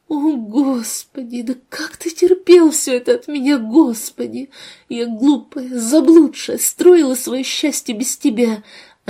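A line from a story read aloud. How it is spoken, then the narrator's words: Sobbing. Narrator (Russian): Ангелина снова всхлипнула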